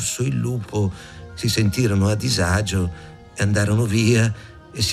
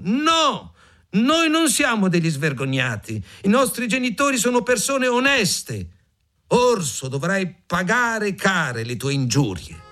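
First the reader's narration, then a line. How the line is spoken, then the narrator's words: Small birds shouting angrily. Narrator (Italian): i piccoli scriccioli si arrabbiarono moltissimo e gridarono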